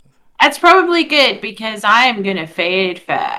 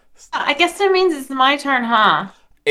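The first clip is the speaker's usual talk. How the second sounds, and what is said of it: Hollywood girl voice. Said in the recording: “why you sounded like a Hollywood girl at the end of your comment there”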